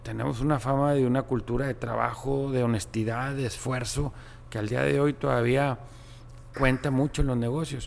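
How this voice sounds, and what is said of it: Monterrey Mexican Spanish accent. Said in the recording (Spanish): “me preguntaron por mi acento, ... que de dónde era, y les dije de Monterrey”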